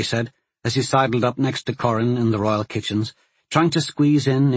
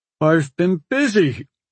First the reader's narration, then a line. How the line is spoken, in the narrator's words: Corrin said with a yawn